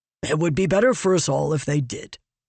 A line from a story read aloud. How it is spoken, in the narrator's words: he grumbled